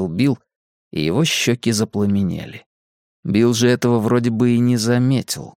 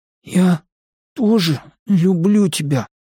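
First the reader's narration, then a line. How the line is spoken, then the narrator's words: Hoarse wheeze. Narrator (Russian): просипел Бен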